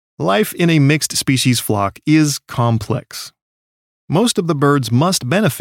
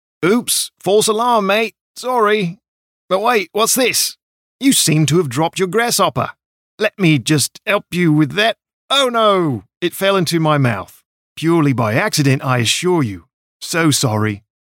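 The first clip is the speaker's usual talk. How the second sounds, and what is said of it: Bad put-on Australian accent. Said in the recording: “really bad Australian accents”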